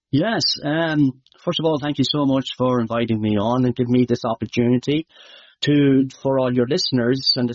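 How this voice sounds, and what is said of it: Irish accent. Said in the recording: “Some of your Irish might know, my accent might be hard to understand”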